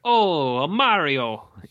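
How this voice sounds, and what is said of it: Put-on Italian accent. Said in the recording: “in my perfect Italian accent”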